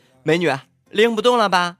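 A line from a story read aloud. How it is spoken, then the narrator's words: Man calling out. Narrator (Chinese): 一男人喊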